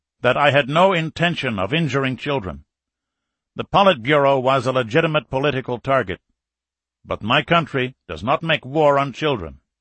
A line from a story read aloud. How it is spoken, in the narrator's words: Falcon went on in a firmer voice